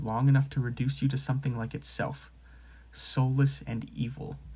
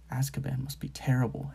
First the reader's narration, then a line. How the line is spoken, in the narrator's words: Harry muttered